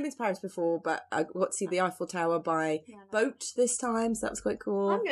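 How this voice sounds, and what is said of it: Usual voice. Nothing is said of it.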